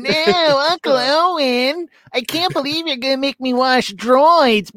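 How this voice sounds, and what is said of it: Whiny young man character impression. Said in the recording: “he's a real punk ... He's just a whiny Luke brat ... Really spot on impression. ... That's my impression of Luke Skywalker.”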